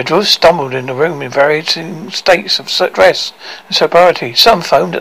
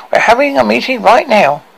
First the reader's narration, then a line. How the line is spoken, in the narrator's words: she squeaked to her ear-piercing volume